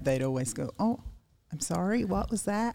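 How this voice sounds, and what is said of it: Good put-on American accent. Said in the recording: “good American accent”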